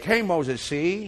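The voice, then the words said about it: Edward G. Robinson New York accent. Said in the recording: “I could almost hear that fellow Edward G. Robinson's accent ... they got this guy from New York, and he's like”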